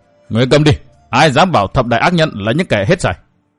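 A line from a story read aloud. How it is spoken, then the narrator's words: Snapping. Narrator (Vietnamese): Đồ Kiều Kiều gắt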